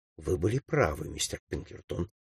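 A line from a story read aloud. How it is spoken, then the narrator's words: Quiet. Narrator (Russian): тихо сказала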